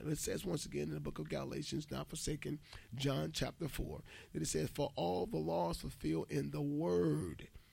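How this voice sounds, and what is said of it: Raspy voice. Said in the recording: “excuse my raspy voice”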